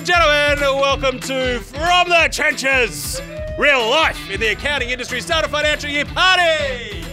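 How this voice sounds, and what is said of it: Announcer-style radio voice. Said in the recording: “That was a radio voice”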